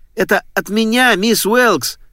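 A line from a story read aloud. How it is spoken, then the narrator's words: Silent inner shout. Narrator (Russian): безмолвно кричал Дуглас, холодея, как сосулька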